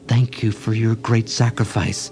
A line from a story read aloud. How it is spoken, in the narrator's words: the mother raccoon gently said